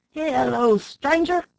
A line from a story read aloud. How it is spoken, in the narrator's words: shouted a voice from within